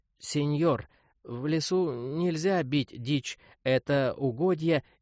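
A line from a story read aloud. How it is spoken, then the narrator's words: Hesitant, stumbling speech. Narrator (Russian): хозяин неуверенно, запинаясь на каждом слове, произнес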